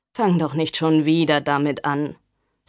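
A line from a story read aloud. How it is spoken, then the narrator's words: Tired. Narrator (German): sagte müde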